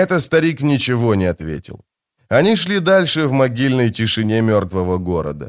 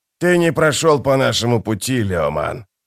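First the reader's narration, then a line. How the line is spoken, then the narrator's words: Growling. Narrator (Russian): прорычал Геборик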